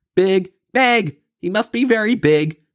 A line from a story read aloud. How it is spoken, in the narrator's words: Duck sputtered, flapping into the air in a flurry